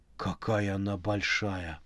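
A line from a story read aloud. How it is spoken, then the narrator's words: Muttered. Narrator (Russian): пробормотал Макс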